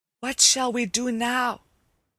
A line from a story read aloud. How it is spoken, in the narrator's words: whispered Hickory to his brothers